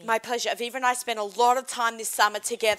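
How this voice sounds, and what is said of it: Australian accent. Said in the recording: “I'm Australian. I have an accent.”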